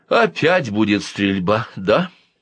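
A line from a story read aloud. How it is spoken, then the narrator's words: Sighing mother. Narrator (Russian): вздохнула мама Марина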